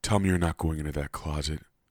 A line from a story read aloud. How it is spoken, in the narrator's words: Mama sighed